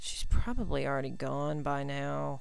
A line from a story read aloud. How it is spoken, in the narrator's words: he mumbled